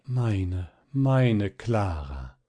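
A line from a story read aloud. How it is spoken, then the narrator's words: Deep emotional groan. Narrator (German): vor lauter Wehmut und Entzücken … er stöhnte tief auf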